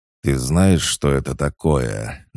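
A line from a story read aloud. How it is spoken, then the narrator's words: Through gritted teeth. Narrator (Russian): процедил Корн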